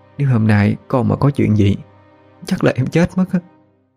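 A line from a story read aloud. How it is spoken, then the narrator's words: Trembling voice. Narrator (Vietnamese): Chị, giọng nói vẫn run rẩy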